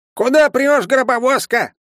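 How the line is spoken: Old woman shouting. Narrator (Russian): закричала бабка

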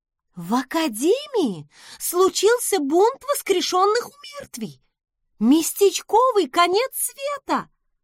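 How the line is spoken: Exclaiming. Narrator (Russian): воскликнула подруга

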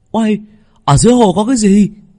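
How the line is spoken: Exclaiming. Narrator (Vietnamese): hắn kêu lên

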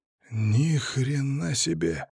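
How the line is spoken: Surprised snort. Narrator (Russian): хмыкнул я, увидев живую людскую лавину в подземке

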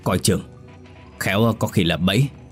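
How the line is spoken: Big man's growl. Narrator (Vietnamese): người đàn ông cao lớn gầm gừ

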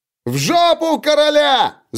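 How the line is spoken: Soldier's shriek. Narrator (Russian): завизжал одинокий солдат

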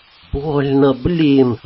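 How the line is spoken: Whimpering voice. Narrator (Russian): отозвался Бен хнычущим голосом

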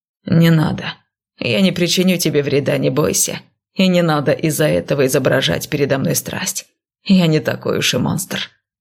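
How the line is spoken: Cold. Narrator (Russian): сказал холодно

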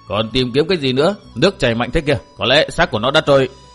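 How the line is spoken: Cold, resentful reply. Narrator (Vietnamese): y có vẻ rất bất mãn, liền lạnh lùng trả lời

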